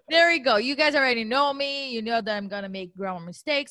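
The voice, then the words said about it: Non-native English accent. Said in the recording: “I can't even pronounce ... I cannot even pronounce ... appreciate you and your accent”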